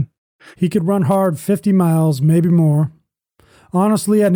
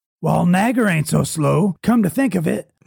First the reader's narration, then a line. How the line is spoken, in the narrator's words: replied Bill with a grunt